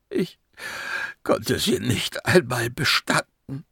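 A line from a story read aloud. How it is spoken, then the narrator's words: Sobbing. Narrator (German): schluchzte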